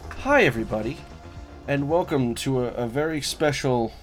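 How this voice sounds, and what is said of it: Weird put-on intro voice. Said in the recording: “you do this weird voice during the intro every time”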